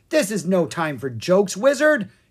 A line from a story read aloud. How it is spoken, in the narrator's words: King Roland snapped